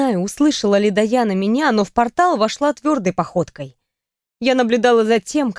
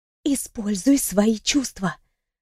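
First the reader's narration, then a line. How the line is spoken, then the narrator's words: Whisper. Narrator (Russian): шепнула я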